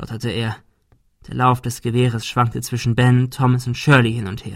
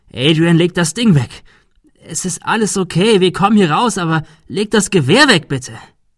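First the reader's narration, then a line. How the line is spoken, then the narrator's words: Screamed plea. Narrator (German): schrie Thomas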